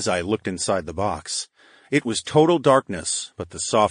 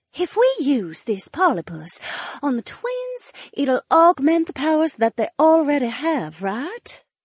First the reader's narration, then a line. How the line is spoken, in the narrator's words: Cleia breathed